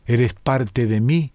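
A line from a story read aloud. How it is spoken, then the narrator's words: Plain. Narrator (Spanish): dijo Cibeles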